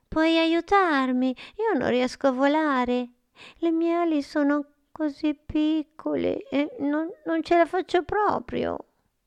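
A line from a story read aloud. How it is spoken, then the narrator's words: Whispered. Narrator (Italian): Frullina le sussurrò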